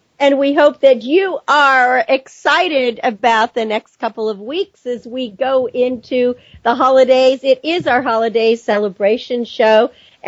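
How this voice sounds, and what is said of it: Hoarse, partly lost voice. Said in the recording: “as you can tell in my voice, I've lost a bit of it.”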